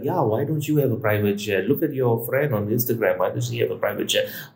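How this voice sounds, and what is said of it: Put-on Indian accent. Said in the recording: “I'm using an Indian accent”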